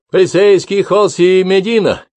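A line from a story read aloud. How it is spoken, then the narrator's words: Deliberately loud barking. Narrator (Russian): пролаял Гидеон нарочито громко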